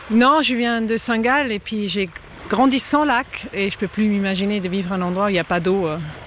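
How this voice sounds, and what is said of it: Slight non-local accent in French. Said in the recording (French): “j'entends un petit accent, donc vous n'êtes pas de Lausanne à la base”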